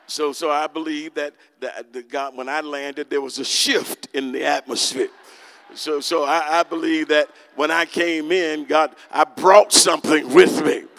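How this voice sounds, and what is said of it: Congested, stuffed-up voice. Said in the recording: “You could hear it in my voice. I stopped up a little bit”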